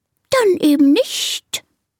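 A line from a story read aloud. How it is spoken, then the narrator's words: Offended snake hissing. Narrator (German): zischt die Schlange beleidigt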